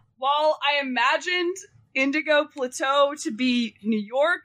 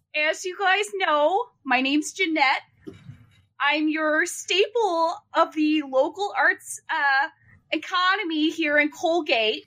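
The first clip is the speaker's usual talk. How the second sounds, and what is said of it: Put-on Minnesota accent. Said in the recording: “I don't know if I can maintain a New York accent. So we're just going to go with a little bit of, Minnesota ... I love Minnesota accent.”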